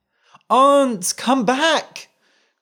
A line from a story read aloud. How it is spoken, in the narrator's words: cried the boy